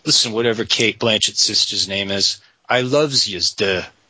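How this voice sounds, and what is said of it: Put-on New York accent. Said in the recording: “Do you like that accent... I'm from New York. That's how I do that so easily.”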